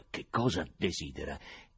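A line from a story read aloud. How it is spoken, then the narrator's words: Mumbled with great effort. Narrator (Italian): facendo uno sforzo enorme, Stiopa farfugliò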